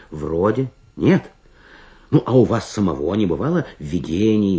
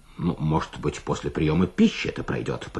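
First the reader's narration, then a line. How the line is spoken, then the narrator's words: Doctor's grumble. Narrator (Russian): пробурчал доктор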